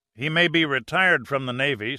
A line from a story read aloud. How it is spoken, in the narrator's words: said Jacobs